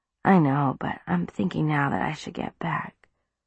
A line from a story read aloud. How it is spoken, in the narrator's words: mumbled